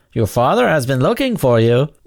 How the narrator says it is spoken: the door watchman called out playfully

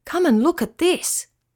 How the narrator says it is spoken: he cried

